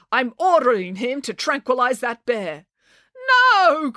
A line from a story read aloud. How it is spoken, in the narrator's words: cried the cat lady